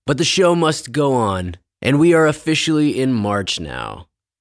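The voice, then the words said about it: Haggard, sick-sounding voice. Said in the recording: “I'm a little sick right now, so my voice sounds kind of haggard”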